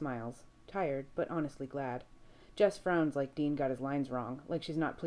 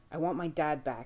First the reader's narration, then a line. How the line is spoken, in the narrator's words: he growls